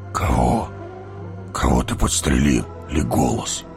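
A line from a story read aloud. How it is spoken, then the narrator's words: Hoarse whisper, dwarf. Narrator (Russian): Хриплым шепотом спросил гном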